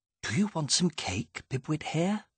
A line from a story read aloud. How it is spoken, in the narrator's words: She whispered